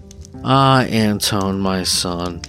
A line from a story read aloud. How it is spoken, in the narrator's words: his mother would answer with a sigh